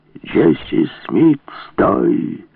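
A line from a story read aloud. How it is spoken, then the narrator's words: Ringing shout. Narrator (Russian): звенящим голосом крикнул Джим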